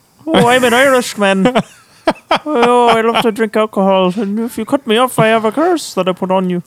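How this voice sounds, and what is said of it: Horrendous put-on Irish accent. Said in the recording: “so many horrendous accents”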